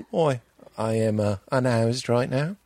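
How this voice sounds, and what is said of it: Put-on accent, almost Australian. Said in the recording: “The accent makes everything seem legit and classy. ... that's almost Australian what you're doing. ... how good this accent is.”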